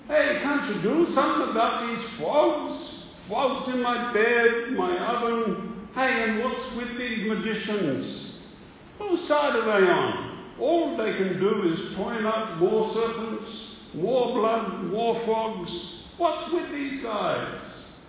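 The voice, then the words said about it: Put-on Brooklyn accent. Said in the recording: “the Egyptians spoke with a Brooklyn accent”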